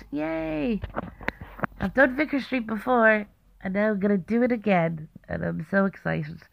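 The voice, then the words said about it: Hoarse, sick-sounding voice. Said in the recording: “my voice is gone and I sound so sick”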